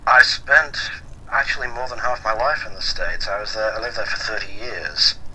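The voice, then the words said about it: American-influenced accent. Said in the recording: “I'm hearing in the accent, you've definitely spent some time in the States.”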